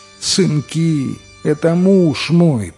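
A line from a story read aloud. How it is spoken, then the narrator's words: Sobbing old woman pleading. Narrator (Russian): Рыдающая старуха опять села у порога и, увидев стражников, взмолилась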